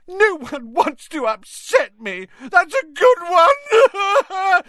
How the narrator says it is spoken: howled Myrtle

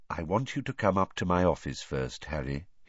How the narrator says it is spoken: he said quietly

